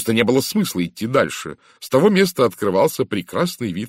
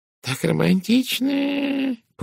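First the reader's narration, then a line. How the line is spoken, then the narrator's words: Purring, sweet tone. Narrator (Russian): промурлыкала мисс Пирс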